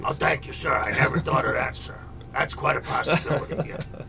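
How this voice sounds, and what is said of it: Imitates a TV detective's voice. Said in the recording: “my poor impression ... your Columbo”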